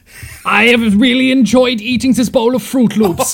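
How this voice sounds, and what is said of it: Put-on fake accent. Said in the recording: “We'll need to work on our fake accents ... Are our fake accents ... These are our normal voices ... This is what we normally sound like”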